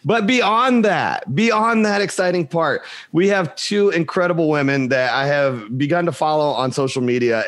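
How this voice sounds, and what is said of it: Strained, hoarse voice, losing it. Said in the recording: “I've been teaching all week and I'm losing my voice. So if it cracks and screeches throughout the show”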